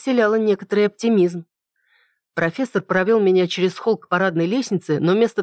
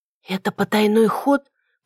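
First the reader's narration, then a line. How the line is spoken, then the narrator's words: Whispered question. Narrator (Russian): почему-то шепотом спросила я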